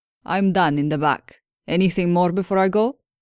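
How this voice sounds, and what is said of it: Sing-song Spanish accent. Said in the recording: “in a sing-song Spanish accent”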